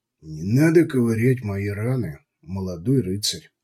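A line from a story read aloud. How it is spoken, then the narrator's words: Quiet. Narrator (Russian): негромко произнес Вильгельм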